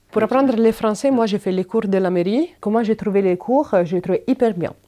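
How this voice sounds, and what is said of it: Italian accent speaking French. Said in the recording (French): “C'est hyper, hyper simple pour les Italiennes comprendre les Français écrits. C'est juste la prononciation que c'est une chose que je vais jamais arriver à bien faire, mais bon, je vais garder mon accent”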